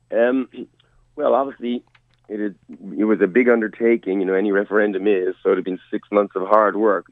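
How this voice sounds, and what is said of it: Slightly hoarse voice. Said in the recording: “I'm feeling a little hoarse this morning”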